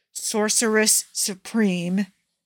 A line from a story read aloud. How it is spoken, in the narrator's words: hissed Loki